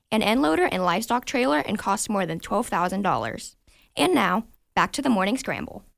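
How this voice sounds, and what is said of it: Even, metered radio announcer voice. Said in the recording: “perfectly radio voice ... Very even. ... Metered.”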